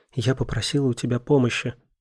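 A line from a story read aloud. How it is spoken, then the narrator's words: Whispered. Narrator (Russian): прошептала она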